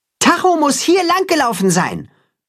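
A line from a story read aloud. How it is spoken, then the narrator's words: Calling out across distance. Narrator (German): ruft er Richtung Weide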